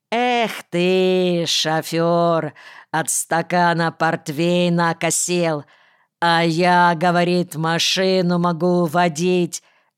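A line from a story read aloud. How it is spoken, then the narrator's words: Singsong. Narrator (Russian): нараспев сказал Земсков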